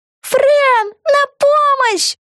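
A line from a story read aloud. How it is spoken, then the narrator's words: Habitual yell. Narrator (Russian): по привычке завопила Вега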